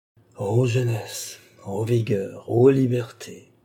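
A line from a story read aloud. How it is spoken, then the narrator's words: Sighing. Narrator (French): ajouta-t-il avec un soupir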